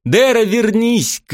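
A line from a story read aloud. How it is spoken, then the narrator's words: Shout. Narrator (Russian): крикнул он опять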